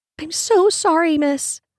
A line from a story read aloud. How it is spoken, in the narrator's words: squeaked the girl as she struggled to her feet